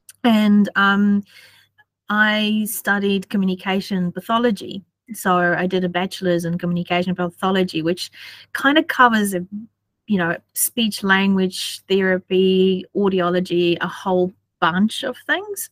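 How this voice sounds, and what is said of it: South African accent. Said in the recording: “as you probably can tell from my accent, wasn't born in New Zealand. I was born in South Africa.”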